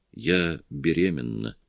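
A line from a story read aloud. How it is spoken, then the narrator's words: Quiet voice. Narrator (Russian): Негромким голосом она сказала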